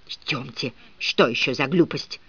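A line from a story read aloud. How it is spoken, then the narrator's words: Furious whisper in ear. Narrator (Russian): яростно зашептала мадам мне в ухо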